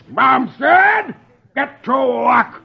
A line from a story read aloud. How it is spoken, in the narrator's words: Dithers yells